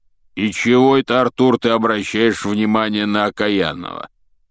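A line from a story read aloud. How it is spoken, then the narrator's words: Grumbled. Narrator (Russian): пробурчал Хагрид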